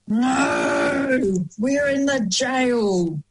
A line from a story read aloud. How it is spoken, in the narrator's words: When the outlaws awoke, they growled